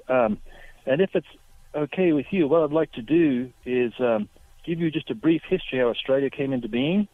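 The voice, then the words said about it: Australian accent. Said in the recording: “great Australian accent”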